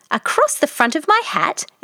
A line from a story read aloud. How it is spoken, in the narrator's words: exclaimed